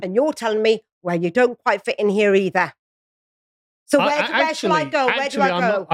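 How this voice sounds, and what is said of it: British accent. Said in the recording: “you sound very British.”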